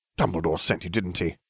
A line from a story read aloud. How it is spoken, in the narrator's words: I spat